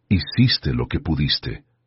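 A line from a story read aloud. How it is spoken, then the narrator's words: Quiet, surprised conviction. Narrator (Spanish): dijo en voz baja, sorprendida por su propia convicción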